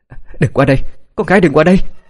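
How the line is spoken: Shouting. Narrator (Vietnamese): Trần Tuyết đã hét lên

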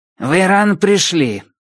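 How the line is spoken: Grumbling. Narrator (Russian): проворчала она

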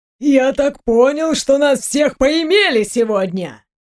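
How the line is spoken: Indignant shout. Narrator (Russian): Подольский возмущенно выкрикнул на весь двор

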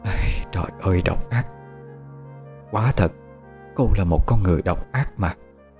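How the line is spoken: Pensive, rambling mutter. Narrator (Vietnamese): mẹ của Nhật Hạ trầm tư, lẩm bẩm một câu không đầu không đuôi

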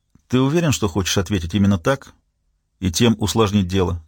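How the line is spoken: Calm question. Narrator (Russian): спокойно спросил Хультин

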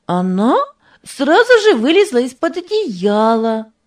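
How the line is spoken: Delighted, laughing. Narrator (Russian): сказала Дженни и тоже восторженно засмеялась

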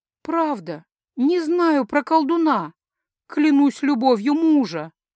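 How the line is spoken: Young woman moaning. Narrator (Russian): простонала девушка

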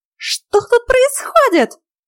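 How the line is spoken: Shrill squeal. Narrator (Russian): Превративно взвизгнула она

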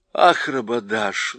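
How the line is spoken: Sighing. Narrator (Russian): вздохнула Люси

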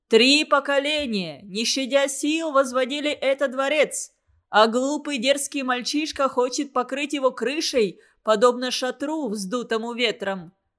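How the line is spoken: Group shouting. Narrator (Russian): Они закричали

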